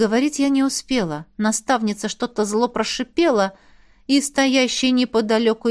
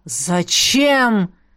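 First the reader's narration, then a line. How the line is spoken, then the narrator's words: Roar. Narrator (Russian): взревела Элисандра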